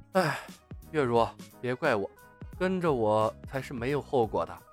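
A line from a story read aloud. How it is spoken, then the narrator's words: Soft sigh. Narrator (Chinese): 他轻轻叹了一声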